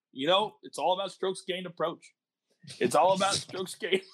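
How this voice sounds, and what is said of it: Imitates another person's voice. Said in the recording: “My best Travis Fulton impersonation.”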